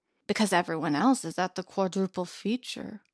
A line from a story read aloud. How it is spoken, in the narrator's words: Alila grumbled